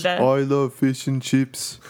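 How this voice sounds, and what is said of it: Imitates another person's accent. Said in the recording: “she has a ridiculous accent... That was such a good accent. That sounds exactly like her.”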